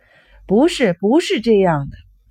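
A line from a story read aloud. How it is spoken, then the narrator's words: Desperate shouting. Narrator (Chinese): 拼命的喊着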